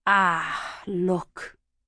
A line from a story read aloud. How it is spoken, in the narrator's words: he said